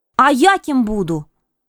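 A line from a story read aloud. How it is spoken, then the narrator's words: Impatient exclamation. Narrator (Russian): в нетерпении воскликнула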